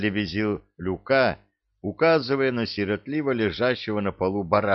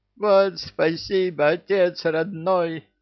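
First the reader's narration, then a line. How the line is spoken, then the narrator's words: Yell. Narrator (Russian): завопил Люка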